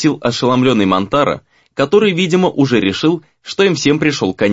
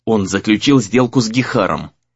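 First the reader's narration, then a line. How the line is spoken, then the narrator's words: Angry reply. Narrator (Russian): зло ответил Сагюнару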